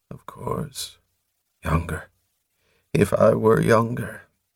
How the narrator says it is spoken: In an odd tone of self-reproach, as if he were apologizing, he mumbled

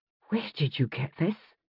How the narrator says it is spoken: she whispered

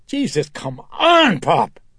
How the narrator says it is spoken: Elvira screeched

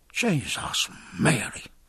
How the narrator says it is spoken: muttered Dillon at his side

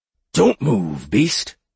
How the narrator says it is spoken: It sputtered in its confusion

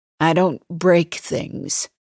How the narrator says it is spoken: she says stiffly

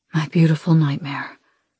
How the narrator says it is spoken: Dez whispers against my skin

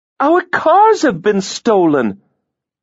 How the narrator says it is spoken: Catherine exclaimed

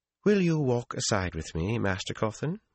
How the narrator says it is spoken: she asked coolly

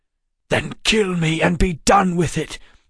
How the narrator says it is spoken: Wayland snapped

